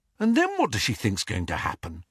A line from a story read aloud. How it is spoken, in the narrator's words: Harry muttered